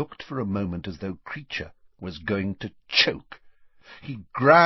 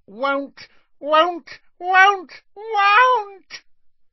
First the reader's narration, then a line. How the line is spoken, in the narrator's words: Creature's voice had risen to a scream